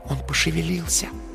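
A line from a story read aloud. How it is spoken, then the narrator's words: Soft whisper in ear. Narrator (Russian): тихо прошептала на ухо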